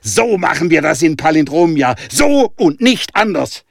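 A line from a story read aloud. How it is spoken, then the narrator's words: Adrenaline-fuelled shouting. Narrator (German): schrie im Adrenalinrausch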